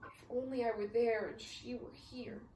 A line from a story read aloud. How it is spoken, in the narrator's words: she sighed